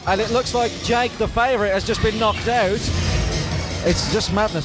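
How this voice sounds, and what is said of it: Hoarse, strained voice. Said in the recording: “I am losing my voice”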